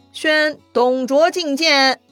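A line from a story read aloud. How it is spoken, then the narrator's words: Loud formal announcement. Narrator (Chinese): 要喊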